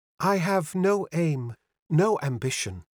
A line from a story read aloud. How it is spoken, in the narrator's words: she said